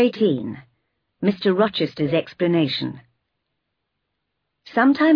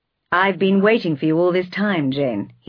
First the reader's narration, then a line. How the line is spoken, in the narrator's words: he said